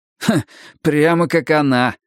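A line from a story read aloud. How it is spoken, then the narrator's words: Stifled laugh. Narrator (Russian): сдавленно хохотнул Арни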